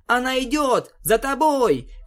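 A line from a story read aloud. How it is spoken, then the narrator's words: Breathless pony shout. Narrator (Russian): кричала голубая пони, безуспешно пытаясь отдышаться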